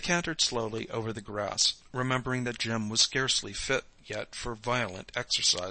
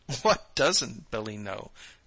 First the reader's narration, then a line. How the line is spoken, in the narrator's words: Nora laughed